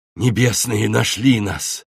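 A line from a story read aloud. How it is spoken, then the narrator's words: Crushed, despairing voice. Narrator (Russian): убитым голосом проговорил стражник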